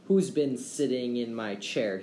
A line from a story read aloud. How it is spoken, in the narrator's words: he growled